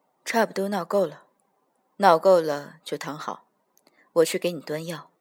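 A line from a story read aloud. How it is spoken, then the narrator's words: Gentle. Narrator (Chinese): 语声倒是温柔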